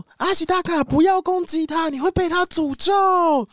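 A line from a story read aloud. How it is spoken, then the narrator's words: Old man shouting. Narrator (Chinese): 爷爷就大喊说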